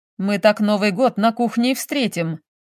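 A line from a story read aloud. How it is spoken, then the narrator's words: Chuckling. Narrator (Russian): хохотнул Валерий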